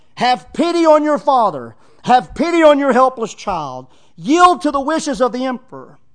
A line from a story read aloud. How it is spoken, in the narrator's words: He yells to her